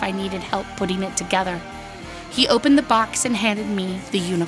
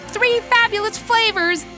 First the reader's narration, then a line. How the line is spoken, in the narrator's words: I yelled